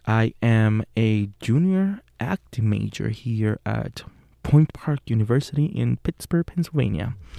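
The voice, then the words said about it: Speaks with a foreign accent. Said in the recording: “weird voice with an accent”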